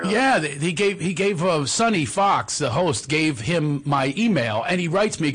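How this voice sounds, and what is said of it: Philadelphia accent. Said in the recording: “I knew you were from Philly because I heard your accent.”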